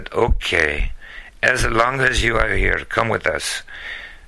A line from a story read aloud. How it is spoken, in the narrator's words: he sighed and said